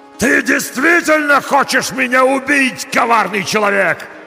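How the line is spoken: Monster's yell. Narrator (Russian): заорал монстр

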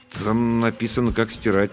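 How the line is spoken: Uncertain explanation. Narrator (Russian): неуверенно объяснил я

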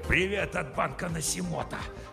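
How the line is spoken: Hissed. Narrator (Russian): Прошипел он

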